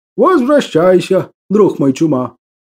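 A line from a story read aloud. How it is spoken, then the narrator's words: Plain. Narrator (Russian): ответил леший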